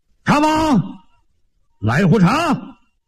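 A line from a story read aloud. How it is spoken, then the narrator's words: A shout. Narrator (Chinese): 有人喊了一声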